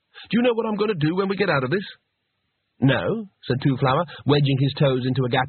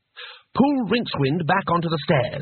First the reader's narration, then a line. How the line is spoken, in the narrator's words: he snapped